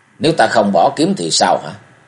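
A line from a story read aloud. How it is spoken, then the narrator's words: Cold. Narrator (Vietnamese): Cung Cừu lạnh lùng nói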